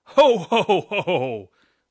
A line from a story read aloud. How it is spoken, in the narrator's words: laughed Santa